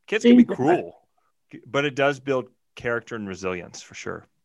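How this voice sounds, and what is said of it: Thick Southern US accent. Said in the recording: “my thick Southern accent”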